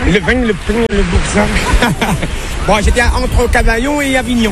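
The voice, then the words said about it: Southern French accent. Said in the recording (French): “l'accent du sud, vestige de ses années passées en France”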